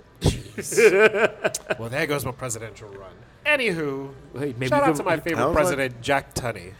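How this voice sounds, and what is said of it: British accent. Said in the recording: “But you are British ... a very cute accent.”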